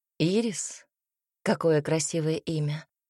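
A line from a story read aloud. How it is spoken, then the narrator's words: Quietly spoken. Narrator (Russian): произнес Альберт негромко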